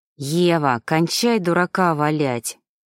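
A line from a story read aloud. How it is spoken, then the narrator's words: Hissed. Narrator (Russian): прошипел Шведов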